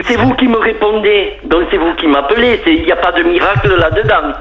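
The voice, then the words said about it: Southern French accent. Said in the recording (French): “je reconnais votre accent, donc effectivement vous êtes du sud”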